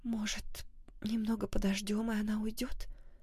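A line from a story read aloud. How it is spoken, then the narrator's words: Whispered question. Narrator (Russian): шепотом спросила Оливия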